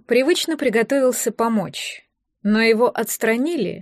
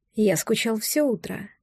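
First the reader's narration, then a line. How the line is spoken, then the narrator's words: Quiet. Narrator (Russian): негромко сказал он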